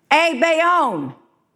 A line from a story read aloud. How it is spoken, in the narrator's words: one of the other men at the table shouted